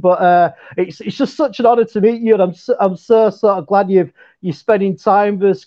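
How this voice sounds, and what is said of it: Yorkshire English accent. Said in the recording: “he lives in England, so maybe you can catch his accent ... I've got like a Yorkshire English accent”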